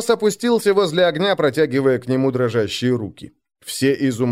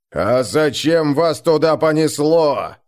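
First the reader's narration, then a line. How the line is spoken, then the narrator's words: Shouting. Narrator (Russian): закричал Крум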